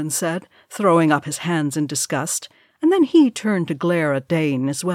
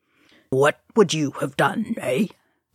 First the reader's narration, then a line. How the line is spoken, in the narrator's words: Dane said through gritted teeth